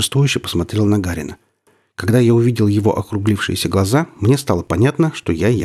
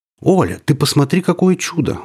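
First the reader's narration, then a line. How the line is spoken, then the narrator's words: Exclaimed. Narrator (Russian): воскликнул профессор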